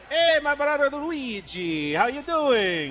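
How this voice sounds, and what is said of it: Mario-style Italian cartoon voice. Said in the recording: “Give me your best impression of Mario, Super Mario. If you were to voice Mario, how would it sound?”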